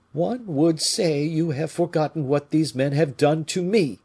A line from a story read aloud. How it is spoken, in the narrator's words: said the king in a hollow voice